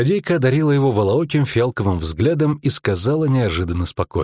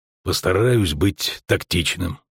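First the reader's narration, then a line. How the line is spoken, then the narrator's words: Grumbled. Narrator (Russian): буркнул он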